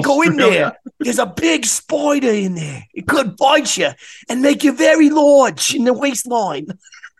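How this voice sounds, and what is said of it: Mock Australian accent. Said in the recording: “they don't talk like that in Austria... that's your Austrian accent. Crikey. It's nothing to do with Australia.”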